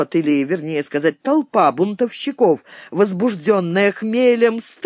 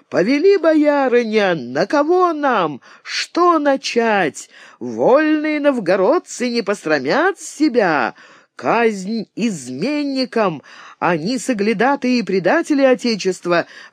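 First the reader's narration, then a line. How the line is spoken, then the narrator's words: Exclaimed. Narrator (Russian): воскликнула Марфа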